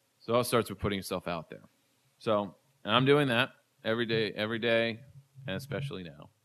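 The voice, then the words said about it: Worn-out, strained voice. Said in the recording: “My voice is gone.”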